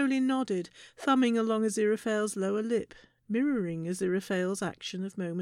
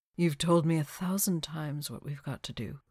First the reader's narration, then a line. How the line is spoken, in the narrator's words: said gently